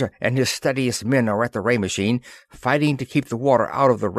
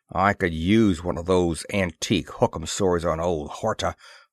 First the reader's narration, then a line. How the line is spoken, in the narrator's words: growled Moore